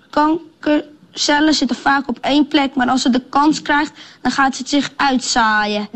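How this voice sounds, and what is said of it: Amsterdam Dutch accent. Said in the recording (Dutch): “zeker met dat Amsterdamse accent”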